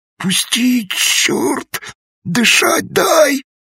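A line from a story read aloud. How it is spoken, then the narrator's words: Hoarse, strained wheeze. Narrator (Russian): просипел белобрысый побелевшими губами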